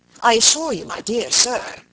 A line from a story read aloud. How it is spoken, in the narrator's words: he said